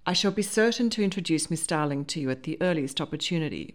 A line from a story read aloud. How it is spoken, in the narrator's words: replied Hugh